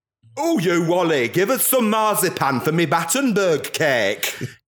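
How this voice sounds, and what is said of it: Exaggerated put-on English accent. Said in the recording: “they frequently slip into an English accent”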